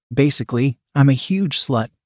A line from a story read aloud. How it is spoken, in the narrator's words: she said with a chuckle